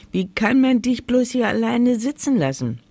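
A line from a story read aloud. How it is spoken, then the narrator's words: Calling out. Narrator (German): rief sie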